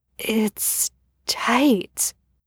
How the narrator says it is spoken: he whispered

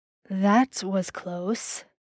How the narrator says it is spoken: Dean murmured in his ear

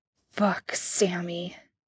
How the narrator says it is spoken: Dean grunted

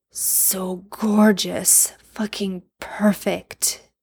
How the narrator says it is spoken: Jensen mutters

